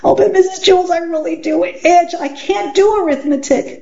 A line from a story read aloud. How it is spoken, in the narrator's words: Dana whined